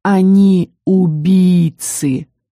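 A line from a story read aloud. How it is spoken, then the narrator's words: Hoarse strained voice. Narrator (Russian): проговорил Шайрен, хрипящим от напряжения голосом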